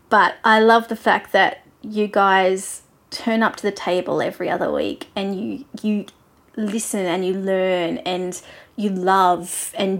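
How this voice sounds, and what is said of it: Australian accent. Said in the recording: “my accent ... I'm more than happy to be your Australian friend”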